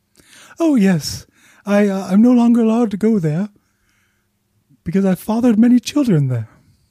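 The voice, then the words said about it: Winnie the Pooh impression. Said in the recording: “Winnie the Pooh, quick question. ... When was the last time you maybe listened to a more officially licensed version of your voice? ... I'm doing my best to speak in my own voice.”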